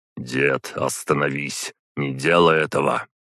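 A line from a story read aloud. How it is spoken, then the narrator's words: Quiet. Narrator (Russian): тихо сказал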